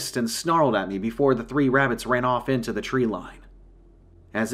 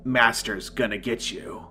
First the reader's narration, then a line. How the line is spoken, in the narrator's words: in a deep, twisted, demonic tone